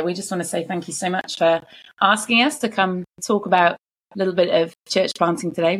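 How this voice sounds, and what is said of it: British accent. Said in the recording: “via the UK originally... you're going to get some great accents today”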